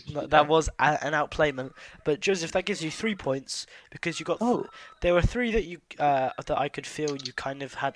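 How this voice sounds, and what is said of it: Slightly hoarse voice. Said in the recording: “I'm a bit hoarse. ... I've been talking too much today.”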